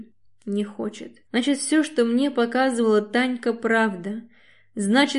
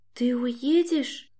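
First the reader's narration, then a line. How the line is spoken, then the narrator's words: Quiet, distant. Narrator (Russian): Слышу тихо из коридора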